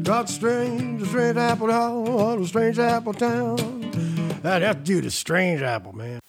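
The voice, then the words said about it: Imitates a famous crooner's voice. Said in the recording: “mimicking Frank Sinatra and Elvis Presley”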